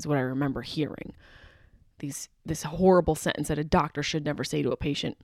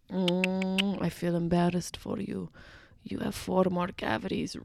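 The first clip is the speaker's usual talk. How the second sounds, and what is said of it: Put-on foreign accent. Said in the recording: “She had an accent.”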